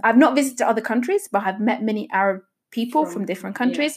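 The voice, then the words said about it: British accent. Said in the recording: “hence the British fake British accent”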